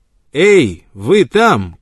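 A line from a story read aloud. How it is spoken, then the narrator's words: Sudden shout. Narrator (Russian): крикнул он вдруг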